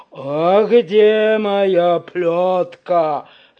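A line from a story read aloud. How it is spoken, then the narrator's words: Growl. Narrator (Russian): зарычал Карабас-Барабас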